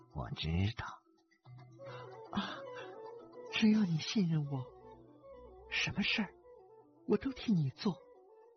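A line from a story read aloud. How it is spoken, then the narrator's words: Soft, tender. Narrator (Chinese): 竹叶青沉默了很久，柔声说道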